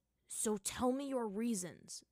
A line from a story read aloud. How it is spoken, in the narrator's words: Zuko said, his voice hard